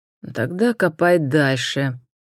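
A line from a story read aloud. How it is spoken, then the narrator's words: Bored tone. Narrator (Russian): скучающим тоном прибавил лорд Энтони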